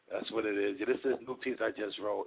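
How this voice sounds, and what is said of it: New York accent. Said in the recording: “a poet with a New York accent”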